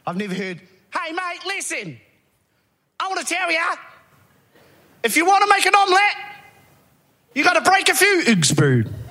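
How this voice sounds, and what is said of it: Australian accent with odd Kiwi word. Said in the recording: “mostly Aussie accent, but the odd random word in a Kiwi accent”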